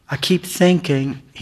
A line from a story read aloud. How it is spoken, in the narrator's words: he said